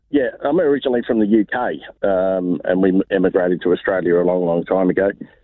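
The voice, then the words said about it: Australian accent. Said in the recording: “you've taken the accent pretty well”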